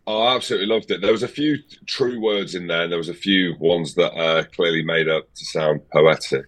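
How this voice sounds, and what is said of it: Broad Scottish accent, slight English twinge. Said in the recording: “this North Hebridean Scottish broad accent.... There's a twinge of English in there as well”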